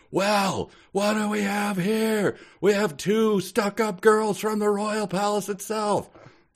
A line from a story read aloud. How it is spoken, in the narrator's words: He yelled